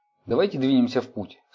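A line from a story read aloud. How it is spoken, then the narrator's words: Plain. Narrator (Russian): сказал Гордон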